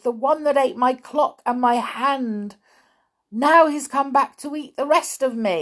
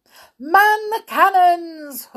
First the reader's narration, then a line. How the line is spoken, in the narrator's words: Hook cried